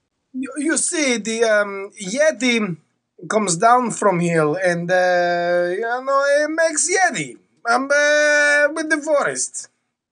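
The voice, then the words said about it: Put-on Russian accent. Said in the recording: “Russian guy, do the Russian accent”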